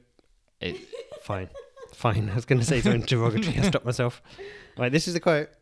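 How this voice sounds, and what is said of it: Usual voice. Nothing is said of it.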